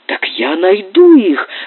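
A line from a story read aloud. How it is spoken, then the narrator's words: Ardent exclamation. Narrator (Russian): с жаром воскликнул Доннор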